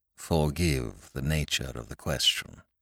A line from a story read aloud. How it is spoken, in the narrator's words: said Sir Impey, bowing blandly